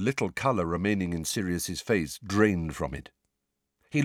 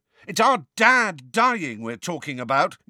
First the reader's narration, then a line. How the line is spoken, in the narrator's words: yelled George